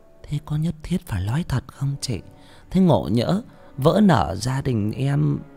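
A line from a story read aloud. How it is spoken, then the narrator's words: Whisper. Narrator (Vietnamese): Bà Lê thì thầm với bà Xoan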